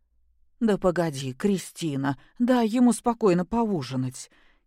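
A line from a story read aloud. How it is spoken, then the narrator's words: Frightened plea. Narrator (Russian): испуганно попросила Любовь Сергеевна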